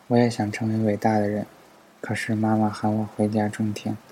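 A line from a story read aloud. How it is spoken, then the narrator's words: Flat, indifferent. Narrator (Chinese): 他淡淡的说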